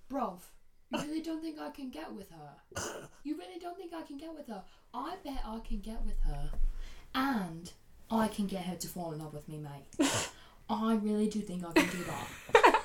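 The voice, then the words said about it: Put-on British accent. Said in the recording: “I'm really loving your British accent.”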